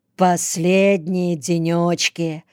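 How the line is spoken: Said with a sigh. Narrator (Russian): сказал Витька, вздохнув

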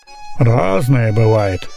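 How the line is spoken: Gloomy reply. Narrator (Russian): мрачно ответил

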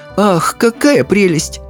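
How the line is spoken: Sighing. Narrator (Russian): Миссис Бейкер вздохнула

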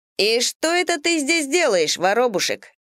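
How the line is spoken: Loud, startling. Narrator (Russian): Громко, да так, чтобы я подскочила повыше, он спросил

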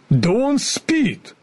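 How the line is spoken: Surprised shout. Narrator (Russian): дровосек удивленно крикнул

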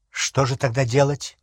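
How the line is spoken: Angry question. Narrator (Russian): сердито спросил Гарри

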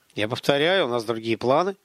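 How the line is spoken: Colonel, through clenched teeth. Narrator (Russian): процедил полковник

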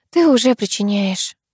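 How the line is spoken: Sigh. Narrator (Russian): вздохнула

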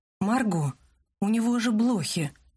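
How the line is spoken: Groaning. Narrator (Russian): простонал Люк

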